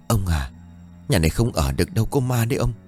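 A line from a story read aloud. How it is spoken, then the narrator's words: Trembling, frightened old woman. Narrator (Vietnamese): Sau khi run rẩy thuật hết việc đêm qua, bà ... run rẩy nói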